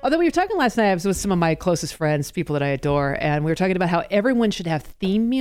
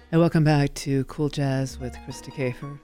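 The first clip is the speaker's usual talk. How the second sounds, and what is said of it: Deep, sultry jazz-announcer voice. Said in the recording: “she's got that deep, dark, sultry jazz voice ... sexy voice ... sultry. I totally could do a cool jazz thing”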